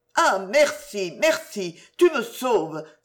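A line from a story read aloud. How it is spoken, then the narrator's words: Exclaimed. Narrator (French): s'écria Lucienne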